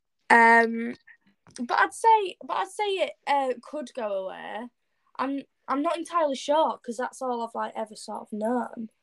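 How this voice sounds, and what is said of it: British accent. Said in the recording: “you obviously are from the uk and you obviously have you know to us you know here here in the states an accent ... people say like i have a i really like cool accent”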